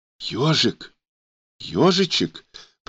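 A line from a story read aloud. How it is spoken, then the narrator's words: Whisper. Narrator (Russian): прошептала Ксения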